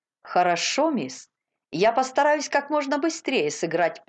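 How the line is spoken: Cheerful. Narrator (Russian): весело сказал

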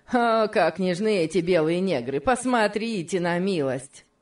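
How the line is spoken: Mocking mimicry. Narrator (Russian): насмешливо стал передразнивать

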